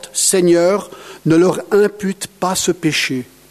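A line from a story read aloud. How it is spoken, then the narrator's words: Loud cry. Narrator (French): Il s'écria d'une voix forte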